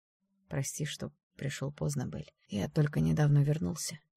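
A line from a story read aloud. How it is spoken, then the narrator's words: Quiet. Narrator (Russian): тихо сказал он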